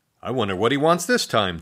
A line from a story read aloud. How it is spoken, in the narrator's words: Drew said